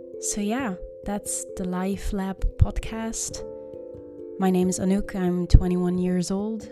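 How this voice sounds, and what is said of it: Slight Dutch accent. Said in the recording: “I live in the Netherlands, so that's why I probably have a little bit of an accent.”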